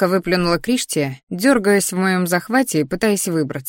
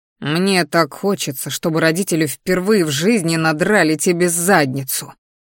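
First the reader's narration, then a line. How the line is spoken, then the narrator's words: Angry growl. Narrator (Russian): рыкнул злобно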